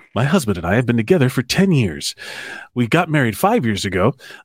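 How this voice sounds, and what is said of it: Announcer-style radio voice. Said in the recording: “I'll do it in my radio voice.”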